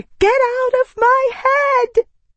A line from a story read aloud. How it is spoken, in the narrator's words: I shrieked